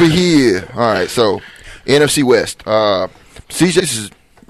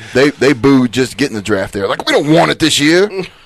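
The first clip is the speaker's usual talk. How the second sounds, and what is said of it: Philadelphia accent. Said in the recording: “I like your Philly accent. You should do that more.”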